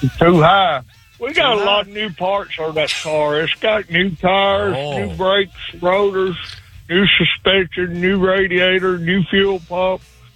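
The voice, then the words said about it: Strong rural Alabama Southern accent. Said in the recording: “I love your accent ... a real backwoods Tuscaloosa, Alabama”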